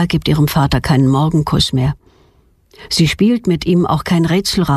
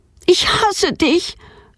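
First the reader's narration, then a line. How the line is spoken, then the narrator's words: Shouting at father. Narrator (German): schreit sie ihren Vater an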